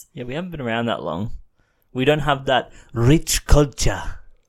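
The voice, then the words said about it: Put-on unidentified accent. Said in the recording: “I don't know what that accent was.”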